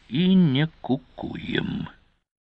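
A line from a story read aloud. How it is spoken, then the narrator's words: Barely audible muttering. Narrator (Russian): Едва слышно, командир добавил себе под нос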